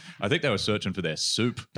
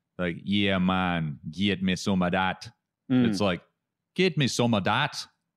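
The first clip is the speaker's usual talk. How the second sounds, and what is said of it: Imitated Jamaican accent. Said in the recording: “if you think about the Jamaican accent, when they're just like”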